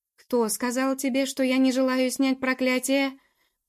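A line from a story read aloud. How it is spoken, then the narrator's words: Furious helpless near-shout. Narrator (Russian): почти что закричал он яростно и беспомощно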